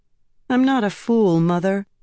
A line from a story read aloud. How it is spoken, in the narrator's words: William Ann said dryly